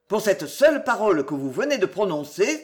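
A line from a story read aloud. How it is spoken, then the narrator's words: Exclaimed. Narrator (French): s'écria-t-il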